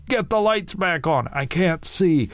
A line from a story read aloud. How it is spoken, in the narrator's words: One of them shouted